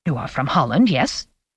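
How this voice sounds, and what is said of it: Dutch accent. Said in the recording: “he said with an accent ... I am Dutch.”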